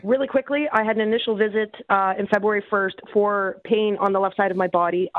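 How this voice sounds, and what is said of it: Slightly raspy voice. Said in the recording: “I'm sorry if I sound a little raspy.”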